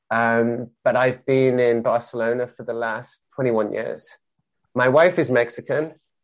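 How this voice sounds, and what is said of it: Mixed, hard-to-place British accent. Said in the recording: “I'm British, born and bred, born in Wales, brought up in England ... my accent is strange because it's kind of like, is this mixture of influences ... people cannot place me ... It's a very pleasant sound”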